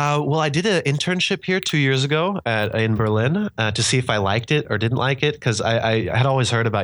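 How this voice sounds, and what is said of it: Usual voice. Nothing is said of it.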